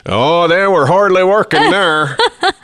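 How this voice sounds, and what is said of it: Put-on Minnesota northern accent. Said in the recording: “Got to get a good northern accent when you do it. ... that's really good ... that's pretty good ... Minnesota ... They got them hard O's.”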